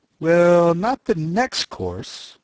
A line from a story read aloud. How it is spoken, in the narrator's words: the knight said in a slow, thoughtful tone